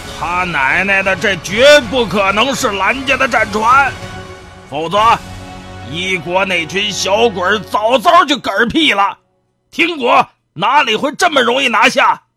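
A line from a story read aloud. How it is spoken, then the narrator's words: Furious roar. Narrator (Chinese): 忽然暴跳的吼道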